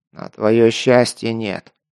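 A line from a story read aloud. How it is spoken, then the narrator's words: Grumbled. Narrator (Russian): проворчал майор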